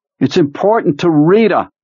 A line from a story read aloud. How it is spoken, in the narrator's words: the skinny man called over the contending roar of the engines